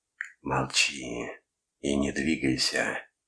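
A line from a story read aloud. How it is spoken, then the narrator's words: Eerie alien voice. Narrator (Russian): произносим мы жутким голосом другого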